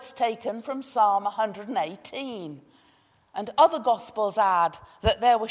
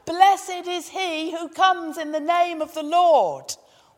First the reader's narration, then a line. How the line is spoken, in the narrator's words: The disciples shout